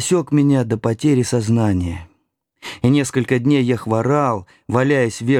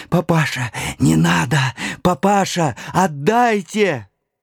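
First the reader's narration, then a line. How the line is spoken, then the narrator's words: Hoarse wheezing. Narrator (Russian): хрипела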